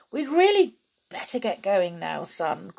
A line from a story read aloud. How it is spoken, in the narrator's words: called out Tom's dad